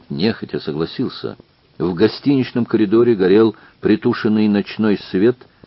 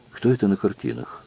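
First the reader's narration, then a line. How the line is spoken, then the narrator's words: Whispered question. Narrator (Russian): спросил шепотом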